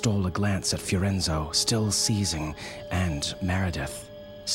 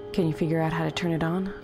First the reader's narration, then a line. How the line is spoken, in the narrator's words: Cynthia said